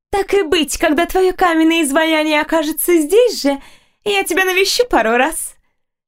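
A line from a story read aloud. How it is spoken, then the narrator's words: Cheerful laughing. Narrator (Russian): Весело засмеялась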